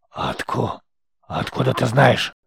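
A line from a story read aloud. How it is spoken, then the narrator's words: Hoarse trembling old voice. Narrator (Russian): Хриплый голос старика надрогнул, Он надсадно закашлялся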